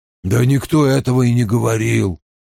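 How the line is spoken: Grumble. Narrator (Russian): пробурчал мужчина со сломанным носом

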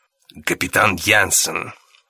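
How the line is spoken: Creaky voice. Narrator (Russian): проговорил Роллинг скрипучим голосом

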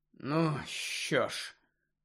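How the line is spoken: Heavy sigh. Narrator (Ukrainian): важко зітхнув Гаррі

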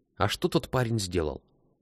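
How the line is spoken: Quiet question. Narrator (Russian): тихо спросил Антон

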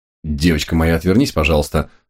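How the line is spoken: Stern request. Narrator (Russian): строго попросил я

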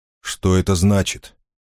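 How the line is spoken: Plain. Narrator (Russian): спросил Черный принц

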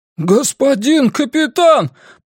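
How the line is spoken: Groaning plea. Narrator (Russian): простонал Джонс

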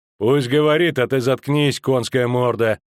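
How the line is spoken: Menacing. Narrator (Russian): грозно сказал ландскнехт

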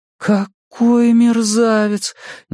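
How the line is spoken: Indignant exclamation. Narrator (Russian): негодующе воскликнула Беверли

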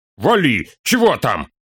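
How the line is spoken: Angry shout. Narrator (Russian): Зло крикнул Торин

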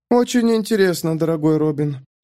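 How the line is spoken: Sleepy reply. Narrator (Russian): сонно ответила она

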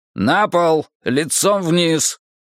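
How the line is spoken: Barking man. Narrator (Russian): мужчина рявкнув

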